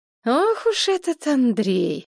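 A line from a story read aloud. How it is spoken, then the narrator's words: Drawled. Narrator (Russian): протянула Надежда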